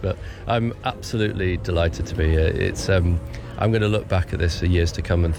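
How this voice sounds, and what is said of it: Lowered, worn-out voice. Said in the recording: “I'm a little bit broken. And you probably tell from my voice, I've done a lot of talking and it's dropped down an octave or two in the last few days.”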